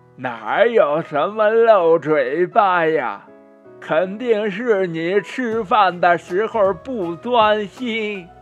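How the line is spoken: Laughing, teasing. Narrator (Chinese): 他笑着说

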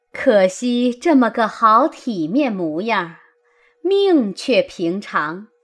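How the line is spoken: Laughing. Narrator (Chinese): 李纨笑道

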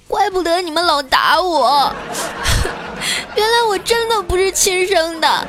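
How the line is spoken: Child crying loudly. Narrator (Chinese): 小侄女一愣啊，然后就大哭了起来

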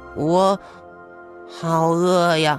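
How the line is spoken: Hungry mumbling. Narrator (Chinese): 兔子们的肚子咕咕叫起来，兔老三嘟囔着

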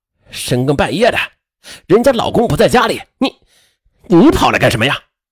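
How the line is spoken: Harsh interrogation. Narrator (Chinese): 肖丽健厉声的就质问石淑华

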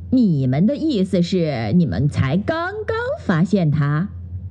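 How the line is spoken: Slow, drawling. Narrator (Chinese): 狐狸雷迪慢吞吞地说

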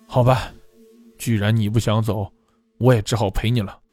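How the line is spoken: Sighing. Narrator (Chinese): 林林叹了口气

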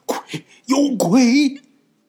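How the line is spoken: Terrified shout. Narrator (Chinese): 姚秃子惊魂未定的手指着窗户就喊

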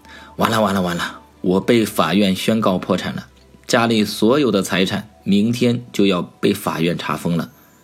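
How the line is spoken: Smiling question. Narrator (Chinese): 妻子笑容可掬地问道

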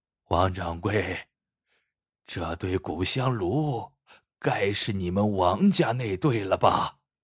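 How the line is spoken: Hoarse, rasping voice. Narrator (Chinese): 来人 嘶哑着嗓音道

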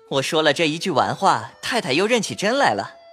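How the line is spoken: Laughing. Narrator (Chinese): 宝玉笑道

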